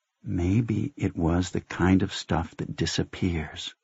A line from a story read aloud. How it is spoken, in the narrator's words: she said, in a very low voice